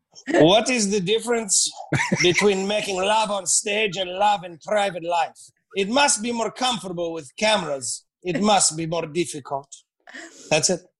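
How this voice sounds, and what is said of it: Put-on accent. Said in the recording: “I love the accent. It brings so much”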